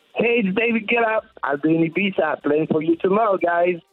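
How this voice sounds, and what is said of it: French accent, imitates another person's voice. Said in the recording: “Don't you recognize my French accent?”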